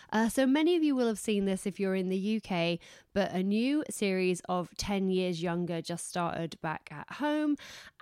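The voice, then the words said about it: Hoarse, fading voice. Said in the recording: “keep losing my voice. But because I'm losing my voice”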